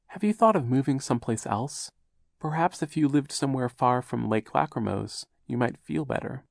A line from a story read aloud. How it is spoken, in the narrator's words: said timidly